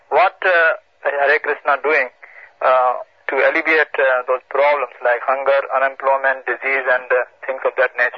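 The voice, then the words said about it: Indian accent. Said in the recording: “your accent is evident. Are you from India?”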